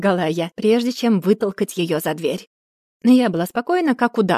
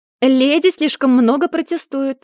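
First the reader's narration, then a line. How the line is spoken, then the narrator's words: Shouted. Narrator (Russian): крикнула она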